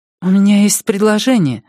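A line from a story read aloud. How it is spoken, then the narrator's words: Timid. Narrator (Russian): робко проговорила она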